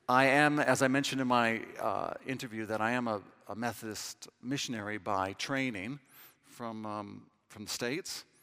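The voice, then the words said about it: American accent. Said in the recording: “As you can tell from my accent, I don't speak English, I only speak American”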